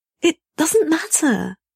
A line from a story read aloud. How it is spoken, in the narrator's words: he pleads desperately